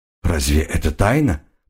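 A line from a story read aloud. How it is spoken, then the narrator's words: Muttered. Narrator (Russian): пробормотал Айра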